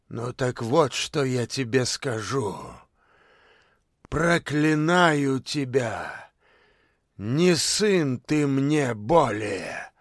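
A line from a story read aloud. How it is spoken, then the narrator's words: Fiery outburst, old man. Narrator (Russian): Огненно выдохнул дед Берендей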